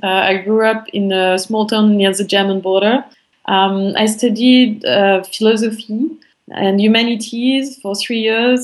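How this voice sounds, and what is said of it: French accent. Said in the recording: “So I'm French. I think you can all hear it from my accent.”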